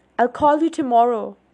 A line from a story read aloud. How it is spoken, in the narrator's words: I yelled